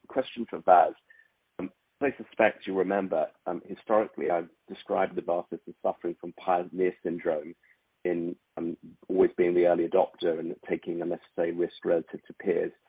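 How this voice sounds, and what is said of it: Strained, unwell-sounding voice. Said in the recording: “Please forgive the voice. I'm struggling with COVID.”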